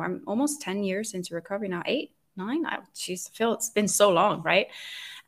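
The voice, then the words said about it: Mixed, hard-to-place Norwegian accent. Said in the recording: “I'm Norwegian, so you can maybe hear my accent. It's a little bit hard to identify... it's a bit of a mix of everything”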